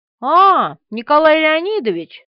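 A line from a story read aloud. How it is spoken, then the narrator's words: Playful exclamation. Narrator (Russian): воскликнул он игривым тоном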